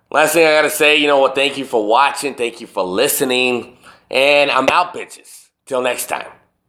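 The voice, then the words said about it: Worn-out, strained voice. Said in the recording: “My voice is pretty much shot.”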